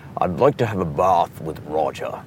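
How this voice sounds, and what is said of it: Put-on posh upper-class British accent. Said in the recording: “speak like these guys ... pretend like there's a piece of hard candy in your mouth ... accent ... that's the very upper, that's the BBC”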